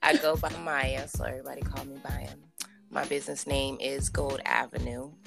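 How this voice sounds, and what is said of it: Groggy just-woke-up voice. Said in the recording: “excuse my voice. I did just have like a little long nap”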